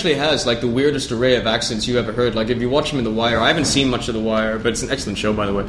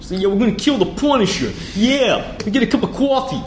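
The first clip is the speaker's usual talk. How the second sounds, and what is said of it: Clichéd stereotypical New York Bronx accent. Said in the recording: “He's got the worst New York fucking, like, cliched... Stereotypical New York Bronx type of accent ... That's Boston. That's not New York.”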